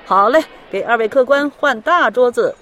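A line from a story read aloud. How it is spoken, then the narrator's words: Delighted shopkeeper calling out. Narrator (Chinese): 老板脸上乐开了花，忙喊道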